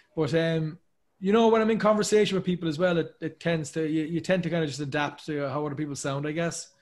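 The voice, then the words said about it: Thick Irish accent. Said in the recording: “I am very Irish, obviously. I'm from Ireland. I'm from Cork and Dublin... You have a very thick accent... Pretty thick accent.”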